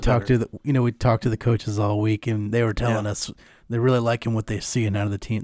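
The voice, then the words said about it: Bad impression of Cris Collinsworth. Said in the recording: “They always impersonate him ... that bad impression”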